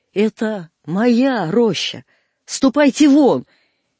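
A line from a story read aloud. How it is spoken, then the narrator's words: Possessive shout. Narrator (Russian): И я крикнул на него тоном собственника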